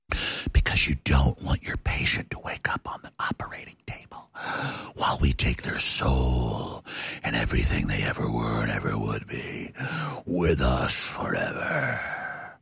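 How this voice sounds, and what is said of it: Soft, delicate NPR-style voice. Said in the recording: “very NPR voice, very delicately.”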